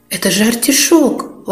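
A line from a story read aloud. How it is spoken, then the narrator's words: Surprised exclamation. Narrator (Russian): воскликнула Лили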